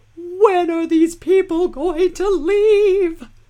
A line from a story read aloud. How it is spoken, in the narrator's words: a tiny voice in your head screams